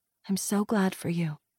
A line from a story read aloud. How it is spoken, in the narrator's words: Caroline said softly